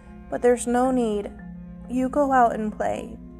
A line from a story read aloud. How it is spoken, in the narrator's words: she said softly